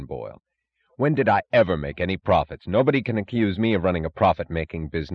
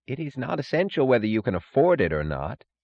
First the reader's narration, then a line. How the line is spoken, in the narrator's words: said Taggart coldly